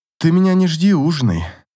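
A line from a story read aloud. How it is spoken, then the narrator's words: Plain. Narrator (Russian): сказала Катя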